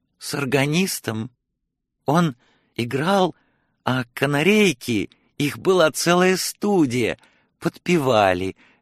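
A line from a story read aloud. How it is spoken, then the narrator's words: Joyful old woman exclaiming. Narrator (Russian): радостно воскликнула старуха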